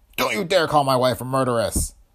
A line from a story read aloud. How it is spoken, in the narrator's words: yelped